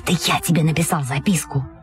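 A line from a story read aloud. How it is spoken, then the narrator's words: Whispered right in ear. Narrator (Russian): Павлик Иванов зашептал в самое ухо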